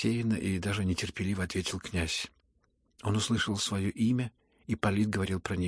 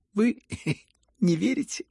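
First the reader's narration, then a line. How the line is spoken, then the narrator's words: Hysterical laughter, man. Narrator (Russian): Истерически смеялся Ипполит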